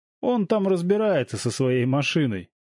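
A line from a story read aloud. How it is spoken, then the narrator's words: Chuckling from behind. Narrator (Russian): хохотнул сзади Женя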